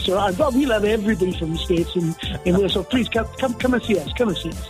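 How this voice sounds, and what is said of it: Welsh accent. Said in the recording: “love that accent”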